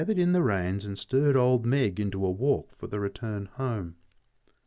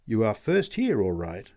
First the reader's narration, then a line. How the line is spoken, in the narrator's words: said the man